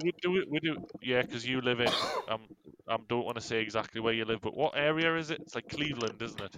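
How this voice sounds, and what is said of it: Northeast English accent. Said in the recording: “just because I've got this accent doesn't mean that I live anywhere in Northumberland”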